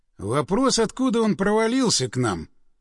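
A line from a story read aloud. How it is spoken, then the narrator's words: Through gritted teeth. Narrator (Russian): процедил напарник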